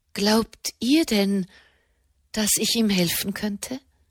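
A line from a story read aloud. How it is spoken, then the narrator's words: Quiet question. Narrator (German): fragte sie leise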